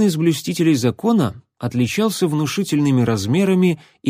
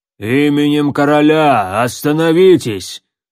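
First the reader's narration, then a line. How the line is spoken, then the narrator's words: Rough thuggish voice. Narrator (Russian): грубо проговорил лысый громила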